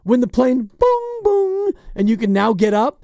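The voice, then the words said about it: Imitating airplane ding-dong chime. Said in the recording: “your best impression. It's of the ding-dong that happens on a plane. That was really good.”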